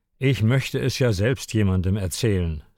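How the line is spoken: Dejected voice. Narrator (German): sagte Alexander mit bedrückter Stimme

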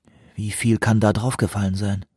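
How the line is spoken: Quiet question. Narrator (German): fragte Van Marten leise

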